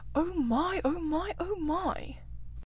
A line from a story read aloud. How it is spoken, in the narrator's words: It was so very beautiful that the mole could only gasp